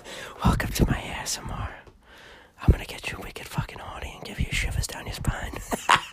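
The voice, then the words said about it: Whispering. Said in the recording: “I'm whispering right in your fucking ear”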